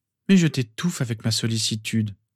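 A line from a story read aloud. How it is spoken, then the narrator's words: Sighing. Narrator (French): soupira-t-elle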